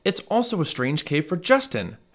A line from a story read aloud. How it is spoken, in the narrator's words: his dad yelled